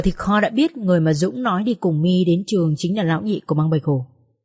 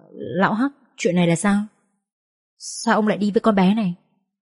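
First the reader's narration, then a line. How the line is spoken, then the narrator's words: Sighing heavily. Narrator (Vietnamese): A Hắc thở dài chết miệng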